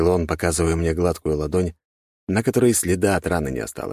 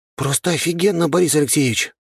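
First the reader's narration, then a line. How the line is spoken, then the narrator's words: Breathless exhale. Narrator (Russian): выдохнул я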